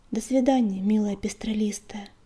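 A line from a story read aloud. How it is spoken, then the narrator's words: Quiet. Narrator (Russian): тихо сказал он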